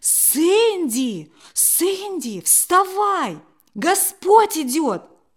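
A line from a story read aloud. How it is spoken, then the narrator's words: Very loud excited shout. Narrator (Russian): Под впечатлением от увиденного бабушка очень громко закричала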